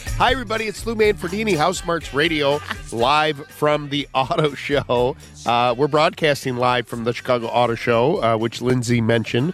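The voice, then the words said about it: Stuffy, congested voice. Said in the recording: “I have a bad cold, so if it doesn't sound like me, it's me... you do sound a little stuffy”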